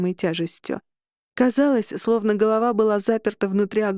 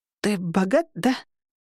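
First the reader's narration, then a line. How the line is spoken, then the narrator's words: Hoarse rasp. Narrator (Russian): прохрипела я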